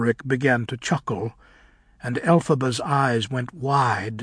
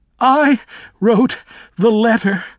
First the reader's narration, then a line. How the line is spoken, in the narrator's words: heaved Fane between her gales of laughter